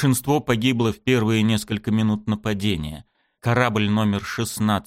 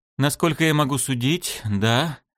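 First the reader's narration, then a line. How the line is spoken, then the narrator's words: Sad, sighing. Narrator (Russian): ответила Далнара, печально вздохнув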